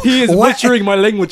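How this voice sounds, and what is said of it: Poor attempt at African accent. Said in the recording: “What accent is that? ... That was my best African. ... No, that was terrible. ... I'm not good at accents,”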